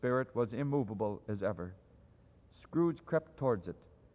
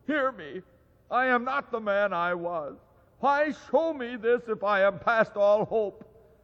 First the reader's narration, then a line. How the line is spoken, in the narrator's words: cried